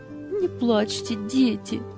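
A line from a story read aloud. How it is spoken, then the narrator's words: Soothing, holding back sobs. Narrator (Russian): Еле сдерживая рыдания, успокаивала их Анита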